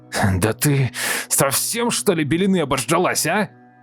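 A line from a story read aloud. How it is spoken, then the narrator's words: Shouted outward. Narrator (Russian): крикнул он куда-то во двор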